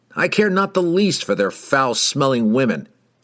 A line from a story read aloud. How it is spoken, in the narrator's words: Kemp blustered, purposefully raising his voice so that Wulfgar and Revjak could hear him